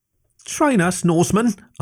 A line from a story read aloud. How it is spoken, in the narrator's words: asked Chieftess Matri urgently